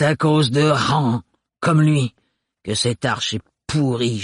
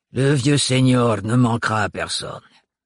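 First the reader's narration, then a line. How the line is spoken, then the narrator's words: Sneering. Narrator (French): ricana la mère Hildegarde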